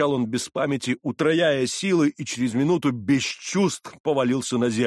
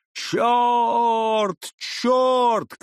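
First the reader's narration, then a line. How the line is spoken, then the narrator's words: Shouting from behind. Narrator (Russian): кричало вслед за ним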